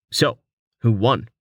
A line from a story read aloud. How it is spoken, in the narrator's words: Val snorted